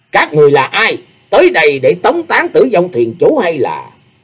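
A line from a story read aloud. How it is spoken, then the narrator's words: Shouted. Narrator (Vietnamese): Tâm Tâm đại sư quát bảo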